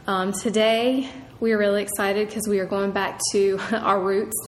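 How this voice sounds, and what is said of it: Nasal, congested voice. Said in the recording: “I sound a bit nasally. I am still under the weather. Feel okay, but don't sound it.”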